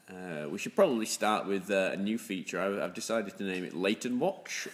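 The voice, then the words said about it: Northern English accent. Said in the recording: “as you probably noticed from my wonderful tone of voice ... I am in fact the”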